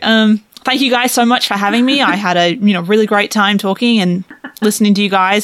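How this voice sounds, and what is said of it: Australian accent. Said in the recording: “your accent ... the accent ... the Australia accent”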